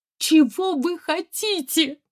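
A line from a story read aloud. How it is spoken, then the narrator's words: Loud sobbing. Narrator (Russian): зарыдала в голос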